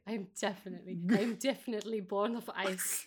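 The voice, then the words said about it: Bad put-on German accent. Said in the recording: “it's like the worst German accent ever. I'm sorry.”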